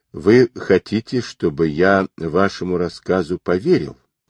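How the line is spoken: Calm curious question. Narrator (Russian): спокойно полюбопытствовал Гуров

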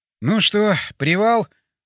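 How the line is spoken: Weary sigh. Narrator (Russian): вздохнул я

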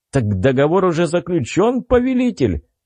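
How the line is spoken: Almost laughing question. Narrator (Russian): Почти смеясь, спросил он

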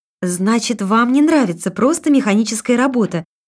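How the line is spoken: Cheerful smiling question. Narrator (Russian): снова бодро улыбаясь, спросила дикторша

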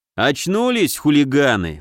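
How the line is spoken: Mocking snort. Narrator (Russian): хмыкнул он

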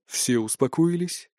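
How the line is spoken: Gentle inquiry. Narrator (Russian): мягко осведомился Айканар

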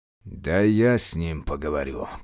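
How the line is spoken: Sudden growl. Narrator (Russian): прорычал вдруг Тыдань

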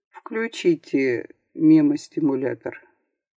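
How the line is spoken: Dull, muffled. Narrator (Russian): глухо сказал

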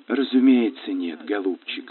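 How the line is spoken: Gentle, affectionate. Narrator (Russian): ласково произнесла миссис Давлдейл

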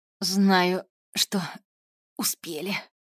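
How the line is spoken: Coughing pained moan, witch. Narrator (Russian): кашляя простонала ведьма, корчась на земле

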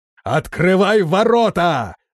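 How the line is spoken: Shouting. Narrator (Russian): закричал

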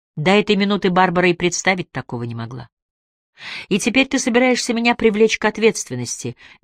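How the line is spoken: Flat, detached voice. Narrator (Russian): безучастным голосом констатировала Барбара

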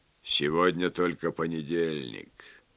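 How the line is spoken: Gloomy mutter. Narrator (Russian): мрачно пробормотал

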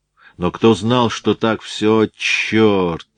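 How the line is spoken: Groaning. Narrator (Russian): Он опять застонал

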